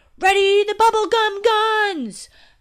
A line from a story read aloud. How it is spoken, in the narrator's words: yelled